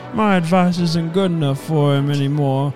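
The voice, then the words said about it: Impression of Lee. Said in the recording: “it's a great Lee impression.”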